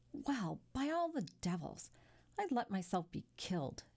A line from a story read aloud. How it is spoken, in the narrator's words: Albert exclaimed